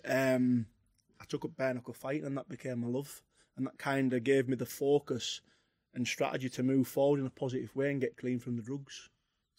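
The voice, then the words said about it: Distinct Cumbrian English accent. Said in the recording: “you've got quite a distinct accent... Cumbria, Carlisle... Halfway to Scotland”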